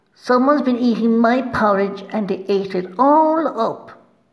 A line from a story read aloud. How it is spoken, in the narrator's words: cried the Baby Bear